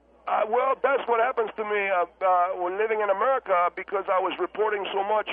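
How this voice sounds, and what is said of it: German speaker with Hispanic-sounding accent. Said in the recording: “you've got almost a Hispanic accent ... you sound more Hispanic than you do German”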